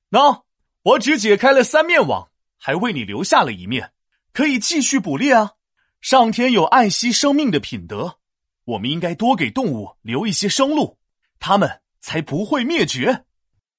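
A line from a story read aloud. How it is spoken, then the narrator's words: Smiling. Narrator (Chinese): 商汤笑了笑说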